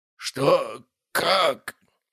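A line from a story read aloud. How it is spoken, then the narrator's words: Hoarse wheeze. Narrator (Russian): прохрипел Костолом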